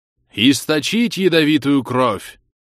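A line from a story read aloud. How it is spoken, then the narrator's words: Solemn booming old man. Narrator (Russian): торжественно прогремел голос старца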